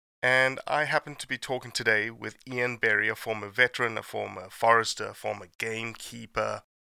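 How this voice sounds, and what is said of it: Sick voice with strong accent. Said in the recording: “As you can tell, I'm sick, so my accent is particularly strong.”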